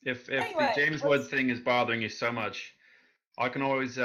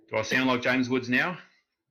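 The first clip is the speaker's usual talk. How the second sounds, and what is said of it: Put-on Australian accent. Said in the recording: “switch to my Australian accent and just pretend to be an Australian ... Dundee? Is that you?”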